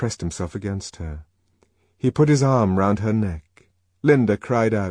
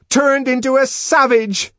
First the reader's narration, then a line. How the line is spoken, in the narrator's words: she shouted